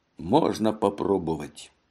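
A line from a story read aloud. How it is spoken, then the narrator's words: Muttered. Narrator (Russian): пробормотал он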